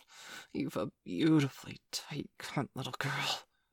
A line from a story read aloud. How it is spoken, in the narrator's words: he breathed